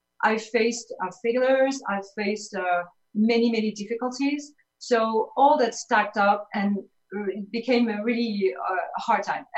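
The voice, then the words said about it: French accent. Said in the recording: “as you hear my accent, I'm from Paris”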